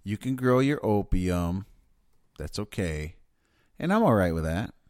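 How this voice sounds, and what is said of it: Sarcastic tone. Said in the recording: “I might sound like I'm being sarcastic”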